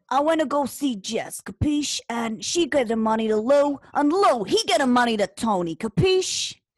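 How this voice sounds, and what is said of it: Put-on gangster accent. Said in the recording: “my gangster accent ... That is fantastic. Good job”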